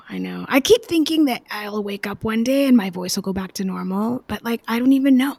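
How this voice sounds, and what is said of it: Raspy voice. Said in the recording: “very raspy still... COVID”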